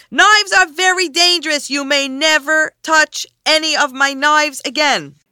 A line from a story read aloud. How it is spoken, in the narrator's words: shouted